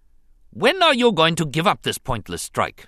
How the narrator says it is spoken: he snapped at the governor

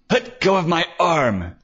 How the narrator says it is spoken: Harold yelped

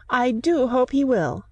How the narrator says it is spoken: said, raising her voice

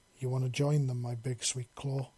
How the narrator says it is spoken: he murmured right in her ear

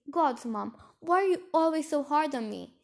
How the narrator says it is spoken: Serafina shouted

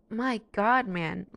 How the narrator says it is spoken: Louie exclaims

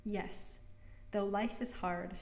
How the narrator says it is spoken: she said

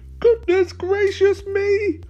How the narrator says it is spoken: she ... exclaimed

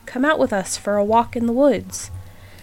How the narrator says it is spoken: a group of girls called out to the Snow Maiden

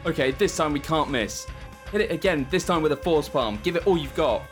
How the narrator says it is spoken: Chuck shouts

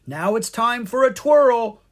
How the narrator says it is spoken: Pix cried

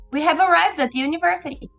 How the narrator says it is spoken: She exclaimed

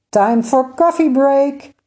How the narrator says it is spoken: SkyMaker shouted

